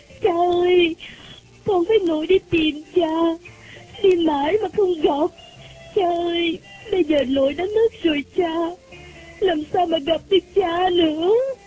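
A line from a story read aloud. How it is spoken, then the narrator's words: Sobbing. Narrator (Vietnamese): bằng một giọng nức nở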